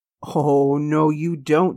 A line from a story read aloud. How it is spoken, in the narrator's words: she giggled